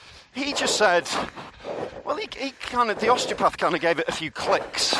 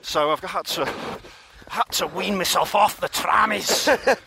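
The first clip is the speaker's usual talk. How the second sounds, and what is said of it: Put-on Scottish accent. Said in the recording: “Why a Scottish accent there? ... Because they love the trammies up in Glasgow.”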